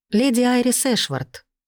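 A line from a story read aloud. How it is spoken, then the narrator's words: Calm introduction. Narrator (Russian): спокойно представилась я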